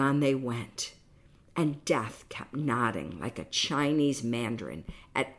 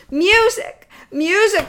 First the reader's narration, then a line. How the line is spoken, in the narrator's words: cried